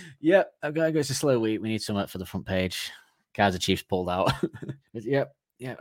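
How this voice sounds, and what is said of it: Usual voice. Nothing is said of it.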